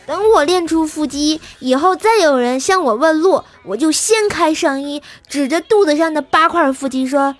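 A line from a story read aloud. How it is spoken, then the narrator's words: Loud. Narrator (Chinese): 在班里大声地说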